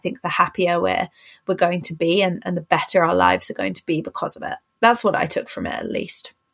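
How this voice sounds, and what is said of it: English accent. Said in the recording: “I think we all love ... accent. ... I live in England, so everyone around me has pretty much the same accent.”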